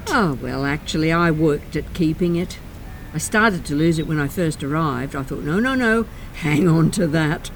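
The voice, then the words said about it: Australian accent. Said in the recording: “Australian, aren't you? ... And you've kept your accent.”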